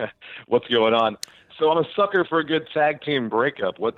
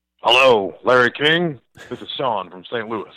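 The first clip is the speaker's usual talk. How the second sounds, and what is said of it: Deep-voiced Larry King impression. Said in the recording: “You have a very handsome, deep voice ... that's not my real voice at all. I was trying to do a Larry King, but I guess it wasn't too good.”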